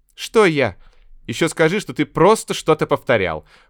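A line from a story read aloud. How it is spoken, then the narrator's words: Snorted. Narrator (Russian): фыркнула Наташка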